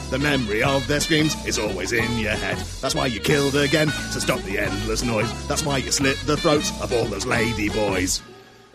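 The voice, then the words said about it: Deep, raspy character voice. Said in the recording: “that voice makes your throat a bit raspy as well ... You were on the lower octave”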